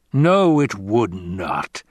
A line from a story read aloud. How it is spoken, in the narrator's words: the Baron growled